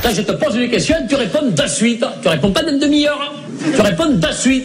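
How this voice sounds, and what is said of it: Put-on southern French accent. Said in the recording (French): “quand Chevalier et Las Palas prennent l'accent du Sud”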